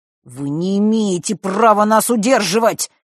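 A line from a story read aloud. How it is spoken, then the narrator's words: Through gritted teeth. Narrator (Russian): процедил Фэш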